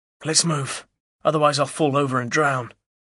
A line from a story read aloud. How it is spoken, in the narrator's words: Albert groans